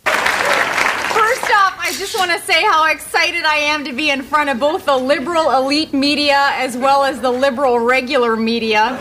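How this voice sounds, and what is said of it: Sarah Palin impression, Minnesota accent. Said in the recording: “That might be Tina Fey as Sarah Palin ... she have a Minnesota accent ... she sounds like she's Midwestern, you know, North Dakota or Minnesota, you know, kind of a Fargo-type accent”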